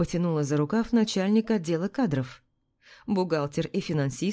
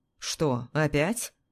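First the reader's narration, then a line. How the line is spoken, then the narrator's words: Angry comment. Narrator (Russian): зло прокомментировал вестовой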